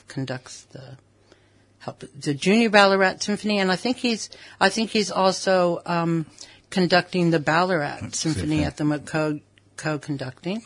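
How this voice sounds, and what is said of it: Soft, lilting non-Australian accent. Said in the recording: “I love that accent. How did you pick up that accent? ... No, you don't. ... But you say dinky die with an accent. ... it's a lullaby. It's beautiful.”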